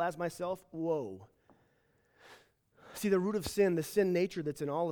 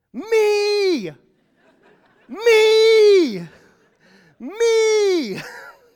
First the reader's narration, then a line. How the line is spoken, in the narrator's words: yell